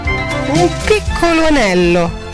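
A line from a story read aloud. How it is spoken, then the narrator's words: Childlike singsong pleading. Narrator (Italian): disse con la voce cantilenante e supplichevole di un bambino che chiedeva un dolcetto di marzapane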